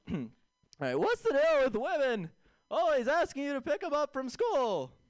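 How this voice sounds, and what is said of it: Jerry Seinfeld impression. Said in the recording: “you want to hear my impression? You want to hear my impression of Jerry Seinfeld?”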